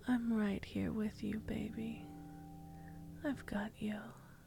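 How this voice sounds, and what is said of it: Soft intimate whisper. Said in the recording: “My voice whispering in your ear.”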